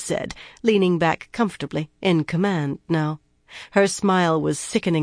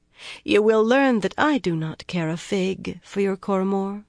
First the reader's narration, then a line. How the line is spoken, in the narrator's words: Cadswain continued, her voice still mild